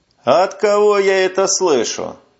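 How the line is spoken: Snide reply. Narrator (Russian): ехидно отвечает

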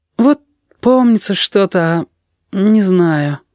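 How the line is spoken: Sad admission. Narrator (Russian): печально признался Яшка

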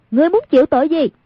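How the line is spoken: Composed shout. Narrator (Vietnamese): không động thanh sắc, quát lên

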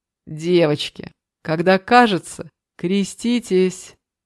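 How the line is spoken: Laughing. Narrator (Russian): Снова хохотнул Дима

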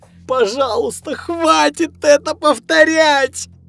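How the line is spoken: Sobbing plea. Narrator (Russian): Она рыдала и умоляла

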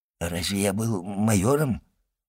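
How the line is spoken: Timid old man's question. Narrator (Russian): робко осведомился старый воин

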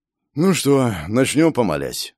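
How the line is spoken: Exhaled words. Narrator (Russian): выдохнул Федор Галактионов

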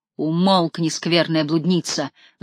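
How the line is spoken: Roaring. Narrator (Russian): взревел он

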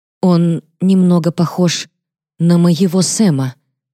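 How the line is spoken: Trembling voice. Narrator (Russian): дрожащим голосом говорю

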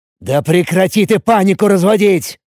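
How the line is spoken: Irritated growl. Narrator (Russian): Раздраженно рыкнул Ацев

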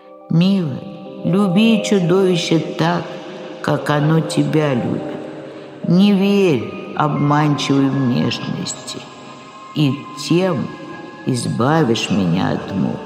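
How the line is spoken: Sad reply. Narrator (Russian): О, грустно отвечал

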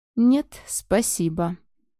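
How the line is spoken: Broken voice. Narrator (Russian): произнес я надломленным голосом

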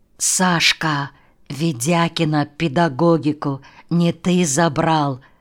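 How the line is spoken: Student's whispered question. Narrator (Russian): спросил шепотом какой-то студент

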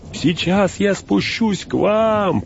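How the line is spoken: Shouted. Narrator (Russian): прокричал Сэм

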